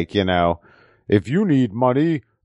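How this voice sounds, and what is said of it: Spot-on impression of commercial voice. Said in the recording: “The voice sounds familiar. ... your Native American accent. You did a really, really spot on impression.”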